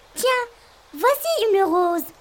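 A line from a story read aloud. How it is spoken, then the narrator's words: Exclaimed. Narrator (French): s'exclame Petit Poucet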